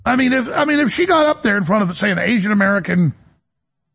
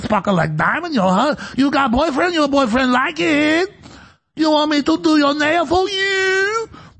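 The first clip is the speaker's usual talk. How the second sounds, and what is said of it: Fake Asian accent. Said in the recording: “why are you talking in a fake Asian accent?”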